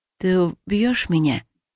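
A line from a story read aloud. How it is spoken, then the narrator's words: Sad question. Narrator (Russian): грустно спросила я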